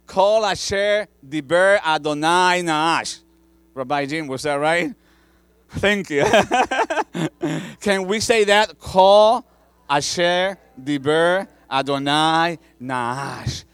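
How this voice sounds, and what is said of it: Hebrew spoken with Spanish accent. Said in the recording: “Hebrew with a Spanish accent”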